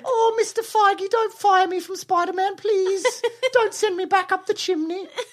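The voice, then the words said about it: Imitates another person's voice, British boy. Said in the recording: “our Tom Holland impersonation ... That's not what he sounds like ... he's like a little British boy”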